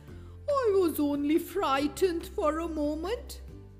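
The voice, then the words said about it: Quavering grasshopper voice. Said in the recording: “in a quavering voice ... the grasshopper quavered”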